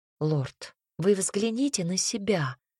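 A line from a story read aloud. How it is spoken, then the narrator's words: Soft request. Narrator (Russian): мягко попросила я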